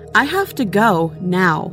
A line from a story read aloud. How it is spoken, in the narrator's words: say sternly